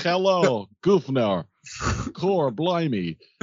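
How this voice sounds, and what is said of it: Mock British accent impression. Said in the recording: “his best British impersonation”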